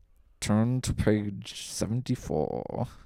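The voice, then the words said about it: Accurate Alan Rickman impression. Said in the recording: “Do an impression of Alan Rickman ... That's too good ... That was really good ... that's the first one that was at all accurate”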